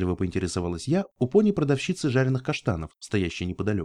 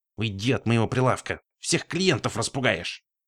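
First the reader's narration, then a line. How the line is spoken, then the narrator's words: Hissing. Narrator (Russian): зашипела она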